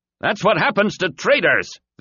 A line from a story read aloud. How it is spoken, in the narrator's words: the human was shouting to the slaves